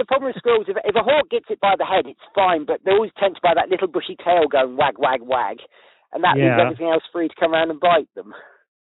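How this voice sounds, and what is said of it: Man speaking with a foreign accent. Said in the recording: “a hot guy on a horse with a falcon with your accent”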